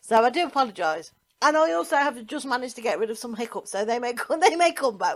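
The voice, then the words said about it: Tired, croaky voice. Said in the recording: “If I sound tired, it's because I am absolutely mentally and physically exhausted ... if I start to sound like a cranky frog”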